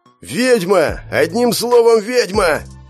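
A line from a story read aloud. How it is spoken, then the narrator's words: Big man shouting angrily. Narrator (Russian): прокричал высокий плотного телосложения генерал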